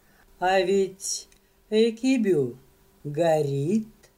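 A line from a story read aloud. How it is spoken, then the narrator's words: Said, then laughing. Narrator (Russian): сказала она и засмеялась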